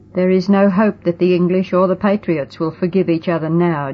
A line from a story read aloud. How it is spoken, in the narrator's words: John said, bowing his head sadly